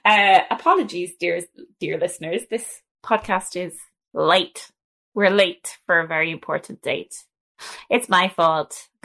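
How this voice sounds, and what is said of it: Strong Irish accent. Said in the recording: “Hello from Ireland ... my accent is going to be about 3 times stronger during this podcast”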